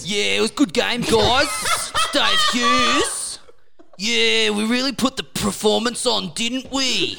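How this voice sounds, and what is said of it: Impression of Husey. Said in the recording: “my Husey impression ... It's the best impression in the world.”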